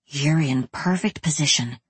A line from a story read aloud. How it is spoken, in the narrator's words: his observer whispered